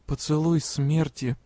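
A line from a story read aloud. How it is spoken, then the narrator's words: Muttered. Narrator (Russian): пробормотала я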